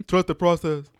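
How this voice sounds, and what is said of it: Mumbled imitation of another person's accent. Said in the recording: “Can you do that accent again? ... It sounds like you're just mumbling, actually doing an accent.”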